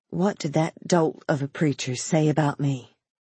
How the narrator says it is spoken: she whispered

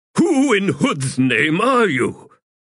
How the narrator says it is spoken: Through the grill of his visor he shouted

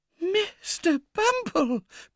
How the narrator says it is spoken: cried the discreet lady in a whisper, for the fright was so great that she had quite lost her voice

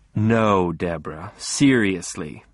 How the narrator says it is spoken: I said in my best soothing voice

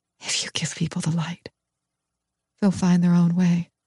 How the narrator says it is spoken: Shaking so hard I can barely stand, I whisper

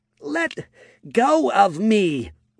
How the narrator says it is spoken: shouted

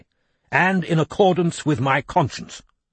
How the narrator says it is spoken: he said firmly

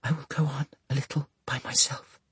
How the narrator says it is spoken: Sissy whispered

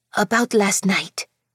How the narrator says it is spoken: she whispered in a rush

